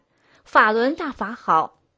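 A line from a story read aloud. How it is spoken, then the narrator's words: Smiling shout. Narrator (Chinese): 满脸含笑，喊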